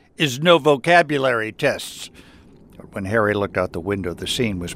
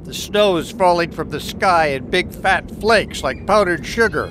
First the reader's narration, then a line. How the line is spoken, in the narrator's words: groaned Harry